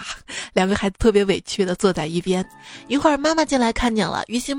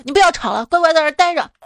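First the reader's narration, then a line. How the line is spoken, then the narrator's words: Impatient shout. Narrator (Chinese): 特别不耐烦嘛，就大声吆喝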